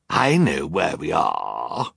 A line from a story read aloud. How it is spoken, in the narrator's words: Olaf sneered